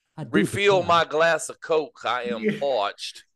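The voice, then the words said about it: Put-on old Southern plantation accent. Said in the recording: “old plantation southern accent”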